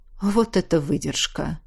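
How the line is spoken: Sigh. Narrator (Russian): вздохнула Ингрид

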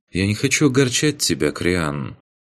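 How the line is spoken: Quiet voice over radio. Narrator (Russian): в канале группы тихо произнесла Ваеса

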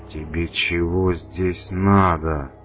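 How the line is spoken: Hissed. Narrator (Russian): прошипел он

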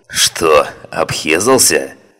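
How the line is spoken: Short laugh. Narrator (Russian): хохотнул Фауст

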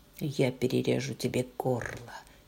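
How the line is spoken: Quiet. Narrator (Russian): тихо сказал он мне

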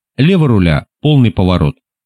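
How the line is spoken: Calm command. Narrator (Russian): спокойно скомандовал капитан Уэст рулевому

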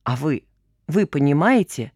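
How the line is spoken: Very quiet whisper. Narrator (Russian): Новый голос прозвучал так тихо, будто его обладатель шептал своему престарелому собеседнику в ухо

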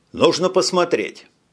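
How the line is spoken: Plain. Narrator (Russian): сказал Джим

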